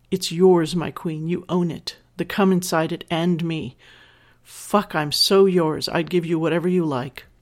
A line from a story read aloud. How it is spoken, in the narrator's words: I moan aloud and answer